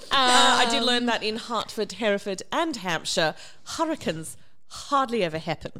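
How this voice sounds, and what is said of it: Put-on British accent. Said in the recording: “So you're doing a Cockney accent and a very RP British accent.”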